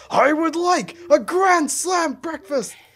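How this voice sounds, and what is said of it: Crazed, demonic high-energy yelling voice. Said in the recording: “he doesn't change his pitch. He maintains that same crazed demon energy pitch when he's both seriously yelling and freaked the fuck out ... this is not a normal human voice ... in that normal voice”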